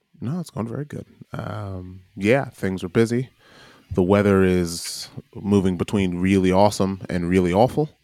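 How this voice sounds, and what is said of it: American accent. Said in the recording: “my accent is extremely American”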